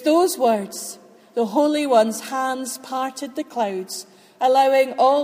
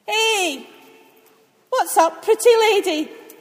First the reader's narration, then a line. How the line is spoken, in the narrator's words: Gabriel was shouting